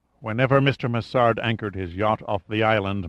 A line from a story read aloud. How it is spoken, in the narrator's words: murmured Varenne